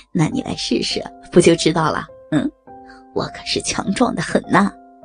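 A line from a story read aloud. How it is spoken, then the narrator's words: Leering laugh. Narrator (Chinese): 严局长色眯眯的笑着说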